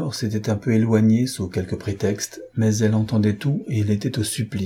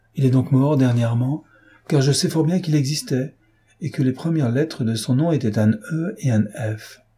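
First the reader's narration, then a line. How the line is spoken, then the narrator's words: Exclaimed. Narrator (French): s'écria Emma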